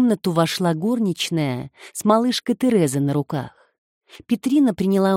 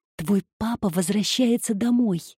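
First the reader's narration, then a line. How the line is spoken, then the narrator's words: Whisper. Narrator (Russian): прошептала она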